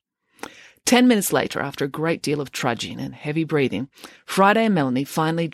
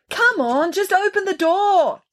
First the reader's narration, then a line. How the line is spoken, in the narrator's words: someone was yelling, but it was muffled as if it was being yelled from the far end of the apartment